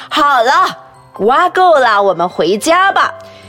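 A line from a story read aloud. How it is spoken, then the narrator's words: Loud announcement. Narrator (Chinese): 妈妈大声的宣布说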